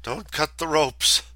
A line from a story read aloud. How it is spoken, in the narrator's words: just gasped